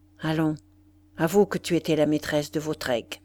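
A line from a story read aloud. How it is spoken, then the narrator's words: Abrupt low murmur. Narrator (French): brusquement, il lui murmura dans le visage, à voix basse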